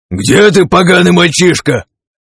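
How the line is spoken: Shouting. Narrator (Russian): крикнул Творец

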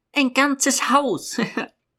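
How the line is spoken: Laughing. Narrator (German): lachte Josephine

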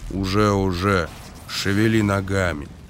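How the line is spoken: Grumbled. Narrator (Russian): Эйс буркнул

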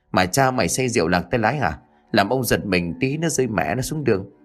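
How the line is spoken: Startled low cry. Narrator (Vietnamese): Lão Kháng ngồi sau bị một phen hoàng hồn rú lên khè khẽ

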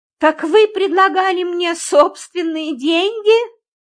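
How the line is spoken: Exclamation. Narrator (Russian): воскликнула я

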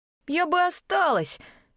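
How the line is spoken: Sobbing speech. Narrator (Russian): сказала, всхлипывая

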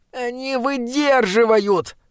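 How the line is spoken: Moaning. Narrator (Russian): простонал Бинабик

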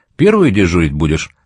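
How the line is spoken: Plain. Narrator (Russian): спросил он

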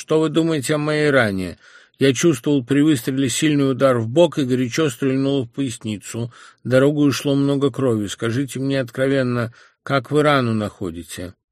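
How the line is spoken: Sick man, loud and clear. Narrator (Russian): больной громко и ясно спрашивал Шольца

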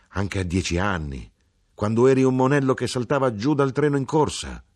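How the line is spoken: Mother exclaiming. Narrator (Italian): esclamò mia madre

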